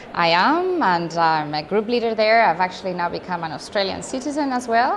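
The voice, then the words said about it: Spanish accent in English. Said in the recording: “your accent isn't quite Canberra ... I am from Spain”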